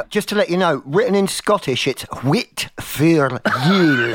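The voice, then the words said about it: Very bad fake Scottish accent. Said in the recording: “Your Scottish accent is really, really bad... real murdering the Scottish accent”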